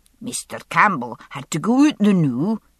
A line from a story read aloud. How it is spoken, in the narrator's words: she said in a broad lowland accent